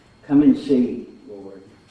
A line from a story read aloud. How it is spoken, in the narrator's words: they replied